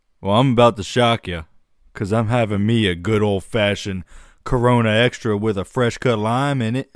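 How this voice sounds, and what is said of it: Put-on Southern American accent. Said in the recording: “I went a little southern with that.”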